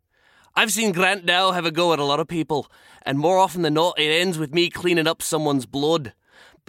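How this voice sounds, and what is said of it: Put-on Scottish accent. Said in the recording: “your Scottish accent is better than mine... That was beautiful. Well done... Nailed it.”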